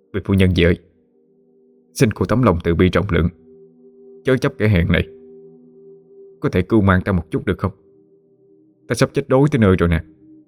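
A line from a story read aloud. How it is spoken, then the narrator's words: Pleading. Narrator (Vietnamese): Chế Việt cầu xin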